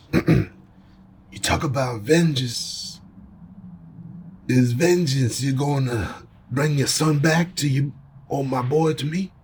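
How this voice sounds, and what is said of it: Put-on Italian accent. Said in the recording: “Read some Godfather monologues, but in an Italian voice.”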